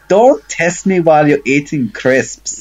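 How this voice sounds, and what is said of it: Heavy put-on accent. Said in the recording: “Ooh, that was a hefty accent there.”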